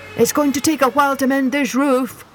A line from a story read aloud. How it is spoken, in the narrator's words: yelled Fireman Jim